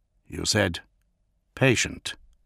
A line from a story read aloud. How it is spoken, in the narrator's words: Gilliman said quietly